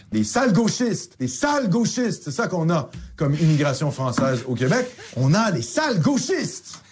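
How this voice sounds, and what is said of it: Very angry, heated ranting. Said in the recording (French): “Il est très, très énervé. ... Très énervé.”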